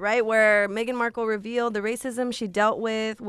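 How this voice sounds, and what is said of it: Usual voice. Nothing is said of it.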